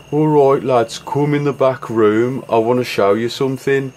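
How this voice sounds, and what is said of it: Birmingham accent. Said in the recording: “he had this really great Birmingham accent”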